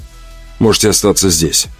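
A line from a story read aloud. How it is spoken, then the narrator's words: Calm speech. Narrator (Russian): спокойно сказал я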